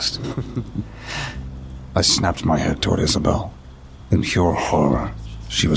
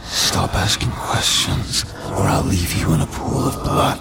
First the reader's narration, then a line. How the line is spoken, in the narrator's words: I screamed